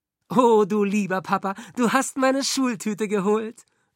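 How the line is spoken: Calling out. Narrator (German): rief Franka

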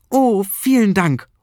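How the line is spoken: Delighted call. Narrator (German): ruft er erfreut

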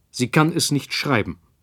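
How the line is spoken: Sharp. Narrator (German): sagte er scharf

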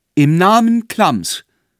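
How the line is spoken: Shouted. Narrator (German): rief

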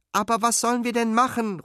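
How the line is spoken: Desperate call. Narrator (German): ruft Fine verzweifelt

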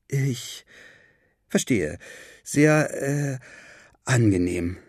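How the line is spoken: Stammering. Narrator (German): stammelte August

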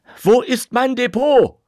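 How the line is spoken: Shouted. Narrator (German): schrie

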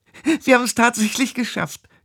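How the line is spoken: Giggling. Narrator (German): kicherte

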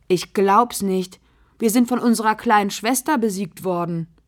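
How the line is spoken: Calling out. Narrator (German): ruft Bruno

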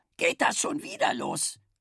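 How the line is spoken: Croaking match-striker. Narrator (German): krächzte die Zündreibe

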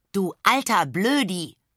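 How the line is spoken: Shouted. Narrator (German): schreit sie

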